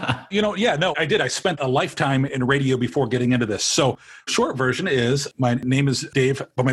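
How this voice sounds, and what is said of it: Usual voice. Nothing is said of it.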